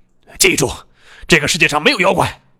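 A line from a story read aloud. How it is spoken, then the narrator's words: Angry roar. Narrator (Chinese): 他很生气，吼道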